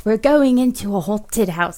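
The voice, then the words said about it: Put-on British accent. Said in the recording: “I'm doing my British accent.”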